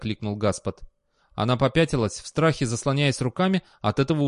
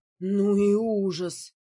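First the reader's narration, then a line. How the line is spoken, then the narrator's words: Strained, forced out. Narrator (Russian): выдавила она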